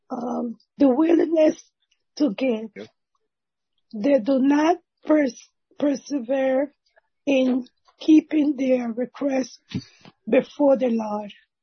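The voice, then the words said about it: Weak, fading voice. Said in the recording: “Sorry, my voice is leaving.”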